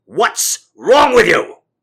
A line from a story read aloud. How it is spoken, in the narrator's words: he yelled